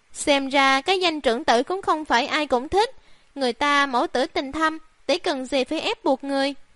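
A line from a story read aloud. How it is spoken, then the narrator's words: Mocking loud laugh. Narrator (Vietnamese): Sang thị, thấy Lý thị sầm mặt xuống, cười to nói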